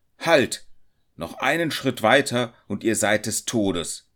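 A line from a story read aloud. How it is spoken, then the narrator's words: Hunter's powerful shout. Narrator (German): der Jäger schrie mit starker Stimme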